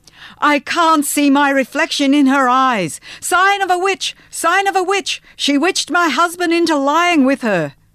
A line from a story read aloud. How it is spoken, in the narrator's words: Urith Gordon screamed